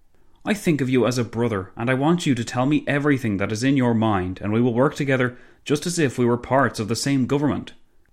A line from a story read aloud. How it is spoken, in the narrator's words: Clemenceau exclaimed